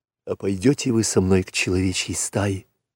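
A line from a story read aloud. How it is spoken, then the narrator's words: Whispered. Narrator (Russian): прошептал Маугли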